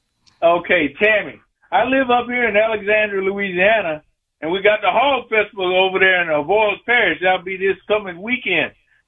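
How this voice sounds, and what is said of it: Louisiana Southern accent. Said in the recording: “Oh, I hear that accent, y'all. I hear it. I hear it, baby. That's me. I'm from New Orleans.”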